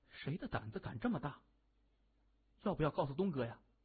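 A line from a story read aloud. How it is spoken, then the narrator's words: Nervous low question. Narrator (Chinese): 水镜咽口唾沫，他低声问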